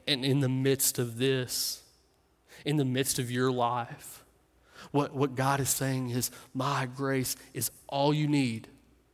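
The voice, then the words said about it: Strong noticeable accent. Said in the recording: “this accent that you all are having to cut through”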